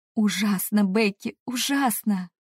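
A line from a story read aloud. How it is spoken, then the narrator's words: Groaning. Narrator (Russian): Простонала я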